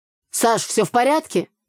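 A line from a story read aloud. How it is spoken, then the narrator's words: Shouted. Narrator (Russian): выкрикнул Игорь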